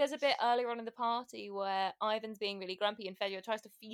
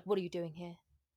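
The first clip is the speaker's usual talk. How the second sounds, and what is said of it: Imitates a character's voice. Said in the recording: “was that a good impression? I'm trying to be like my other half.”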